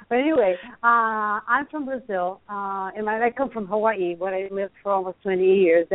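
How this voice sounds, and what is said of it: Brazilian accent. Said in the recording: “I'm Brazilian. You all can tell that I have an accent.”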